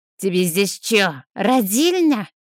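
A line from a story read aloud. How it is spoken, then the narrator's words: Barked. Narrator (Russian): Рявкнул на меня он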